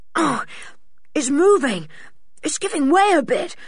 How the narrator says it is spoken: panted Julian

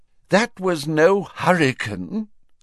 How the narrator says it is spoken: said Fudge miserably

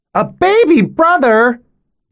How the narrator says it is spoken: they shriek

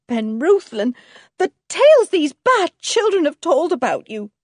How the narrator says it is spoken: cried his wife

